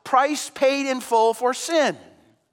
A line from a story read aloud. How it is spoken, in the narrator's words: that declaration shouts out